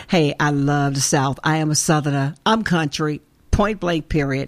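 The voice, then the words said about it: Southern Arkansas accent. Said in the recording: “my accent, my Arkansas accent is showing up”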